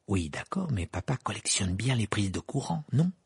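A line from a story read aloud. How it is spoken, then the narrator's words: Low voice. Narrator (French): dit Fred à voix basse tandis que Mme Wesley sortait de la cuisine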